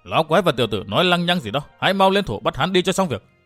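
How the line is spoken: Barking shout. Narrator (Vietnamese): Âm Tiêu quát tháo

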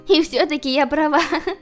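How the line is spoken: Laughing. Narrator (Russian): рассмеялась она

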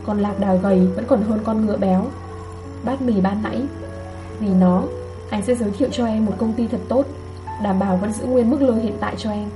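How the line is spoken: Soft laugh. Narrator (Vietnamese): Anh khẽ cười nói

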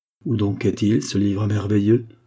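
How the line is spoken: Plain question. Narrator (French): demanda Tantiris

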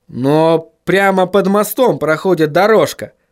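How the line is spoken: Exclaimed. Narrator (Russian): воскликнул Вильям

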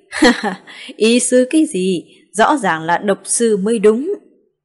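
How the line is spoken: Bursting into laughter. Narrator (Vietnamese): Lưu trưởng quỹ không nhịn được bật cười

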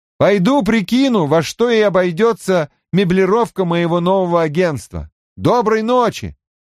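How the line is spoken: Shouting downward. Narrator (Russian): прокричал вниз

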